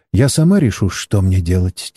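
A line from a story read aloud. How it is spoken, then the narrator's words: Quiet. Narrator (Russian): тихо произнесла китаянка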